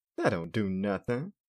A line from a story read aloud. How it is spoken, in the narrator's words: Larry laughed